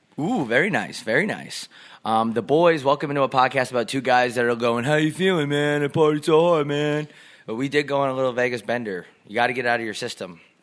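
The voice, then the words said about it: Slightly raspy tired voice. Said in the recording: “Can you tell from my voice? ... It's got that little bit of that rasp. ... A little bit of raspy. ... rasp.”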